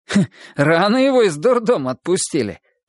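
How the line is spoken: Chuckle. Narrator (Russian): хохотнул еще Жмыха

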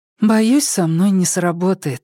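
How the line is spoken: Sighing. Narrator (Russian): вздохнула она

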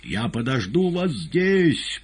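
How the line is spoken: Shouted through cupped hands. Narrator (Russian): прокричала Зазела, сложив руки щитком

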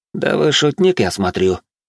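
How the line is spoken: Cold tone. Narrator (Russian): холодным тоном произнес он

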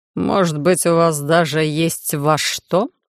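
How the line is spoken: Increasingly haughty, through teeth. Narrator (Russian): повышая градус высокомерия, процедил Дилейн

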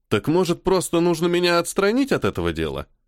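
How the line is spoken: Sarcastic question. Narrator (Russian): все так же язвительно спросил майор

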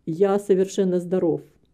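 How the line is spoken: Dry interruption. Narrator (Russian): сухо перебил его мистер Амори

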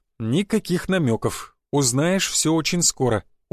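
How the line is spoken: Smiling. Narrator (Russian): улыбнулся я

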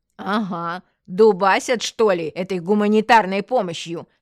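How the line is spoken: Sarcastic. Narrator (Russian): съязвила Татьяна Павловна

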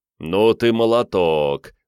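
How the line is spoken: Pleased rumbling voice. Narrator (Russian): довольно прогудел тот

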